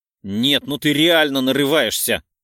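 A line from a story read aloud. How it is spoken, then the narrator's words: Barked. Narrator (Russian): Рявкнула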